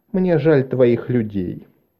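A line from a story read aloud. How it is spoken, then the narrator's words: Soft. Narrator (Russian): сказала она мягко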